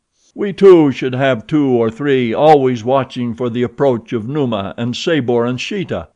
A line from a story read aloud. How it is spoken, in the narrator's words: replied Tarzan